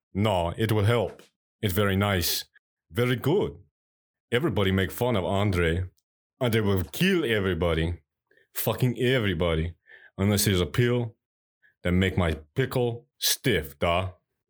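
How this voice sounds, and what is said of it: Poor put-on Russian accent. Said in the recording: “My Russian accent is terrible. ... It almost sounded like, not Russian, but like you have a learning disability”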